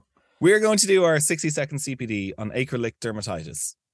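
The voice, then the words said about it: Irish accent. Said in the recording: “my my Irish accent”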